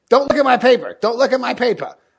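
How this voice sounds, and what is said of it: Impersonation of a friend. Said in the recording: “decent impersonation of Pete. Not bad. ... I think I've taken the impersonation too far.”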